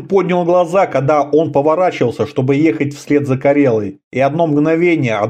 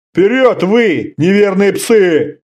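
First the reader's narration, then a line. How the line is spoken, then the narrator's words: Roaring. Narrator (Russian): взревел он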